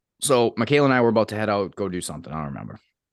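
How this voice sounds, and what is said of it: Voice sounds rough and unwell. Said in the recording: “you can probably hear it in my voice ... I sound worse than I feel”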